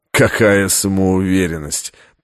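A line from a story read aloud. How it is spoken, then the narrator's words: Contemptuous snort. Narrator (Russian): презрительно фыркнул ассасин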